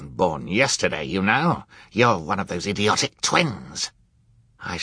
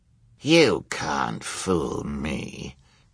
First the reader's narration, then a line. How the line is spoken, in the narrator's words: Count Olaf growled